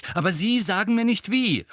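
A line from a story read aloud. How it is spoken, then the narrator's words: Angry. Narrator (German): sagte Harry zornig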